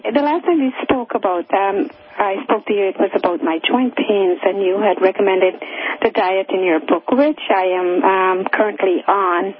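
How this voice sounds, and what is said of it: Weak, fading voice, losing it. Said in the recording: “I'm sorry if I fade in and out. I'm sort of losing my voice.”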